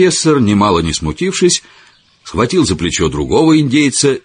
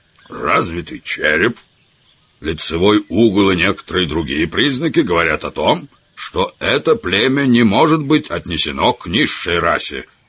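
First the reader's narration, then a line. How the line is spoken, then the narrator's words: Booming resonant bass. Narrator (Russian): загудел своим звучным басом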